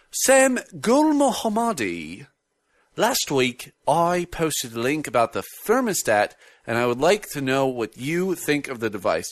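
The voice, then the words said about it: Put-on British accent. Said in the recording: “I'm just going to try it with a British accent”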